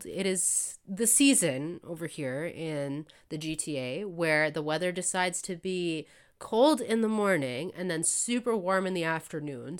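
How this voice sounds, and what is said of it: Congested, sick-sounding voice. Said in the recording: “as you can probably hear from my voice... I am getting over a really bad cold”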